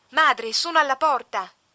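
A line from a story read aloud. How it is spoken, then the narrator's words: Unrestrained screaming nun. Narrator (Italian): una conversa urlando senza ritegno per il luogo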